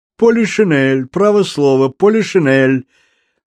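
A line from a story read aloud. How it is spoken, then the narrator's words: Yelling. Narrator (Russian): завопил Антуан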